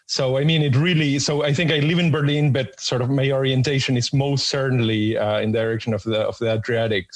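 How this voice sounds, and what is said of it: American-tinged English accent. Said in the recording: “I spent many years in the US. That's why I have this ghastly accent.”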